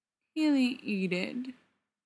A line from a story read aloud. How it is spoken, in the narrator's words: says Keely sadly